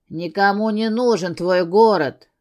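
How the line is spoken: Through gritted teeth. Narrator (Russian): процедил Гарик

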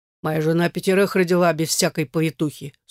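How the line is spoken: Dry, curt statement. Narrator (Russian): сухо сообщил хозяин

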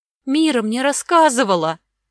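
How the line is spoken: Frightened whimper. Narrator (Russian): захныкала испуганно Огнева

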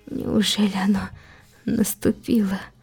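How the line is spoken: Whisper. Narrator (Russian): прошептал Субару

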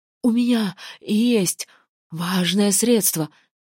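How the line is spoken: Strained, forced out between screams. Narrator (Russian): Между криками выдавил Хлёдвер

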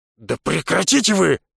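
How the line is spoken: Bark. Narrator (Russian): рявкнул Хорн

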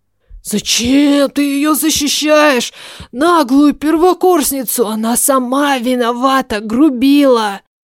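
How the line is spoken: Hoarse wheezing. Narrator (Russian): Хрипел Карл

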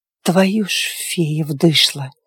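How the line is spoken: Hoarse wheeze. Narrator (Russian): прохрипел Диего

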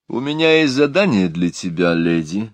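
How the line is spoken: Formal tone. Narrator (Russian): официальным тоном обратился он к Миламори

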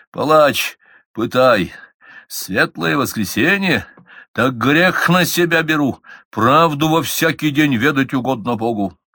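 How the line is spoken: Muffled, hollow voice. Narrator (Russian): Меньшиков глухо сказал

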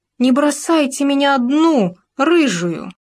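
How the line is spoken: Shouting while running away. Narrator (Russian): лиса, бежала и кричала

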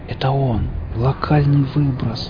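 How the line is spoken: Spellbound whisper. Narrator (Russian): завороженно прошептал я

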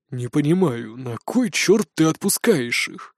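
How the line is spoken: Grumbling. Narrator (Russian): проворчал Бродди

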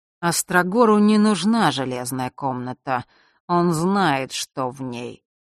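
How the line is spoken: Drawling, recalling, old man. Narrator (Russian): протянул прадед, будто что-то припоминал

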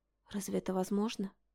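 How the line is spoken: Whisper. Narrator (Russian): Я не заметила, как перешла на шепот

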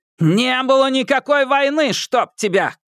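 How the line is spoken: Shout. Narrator (Russian): крикнул Гонзага

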